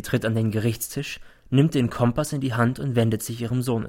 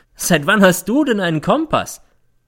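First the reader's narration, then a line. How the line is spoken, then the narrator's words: Mocking question. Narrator (German): fragt sie, und es klingt wie Hohn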